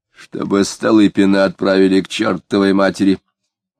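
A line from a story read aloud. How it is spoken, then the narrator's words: Grumbled, fat man. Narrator (Russian): проворчал соседу толстый человек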